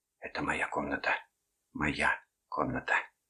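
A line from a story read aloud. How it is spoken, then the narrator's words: Muttering. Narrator (Russian): Эстер бормотала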